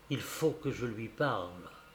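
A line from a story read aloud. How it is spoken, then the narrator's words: Whispered order. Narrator (French): m'ordonna-t-il dans un souffle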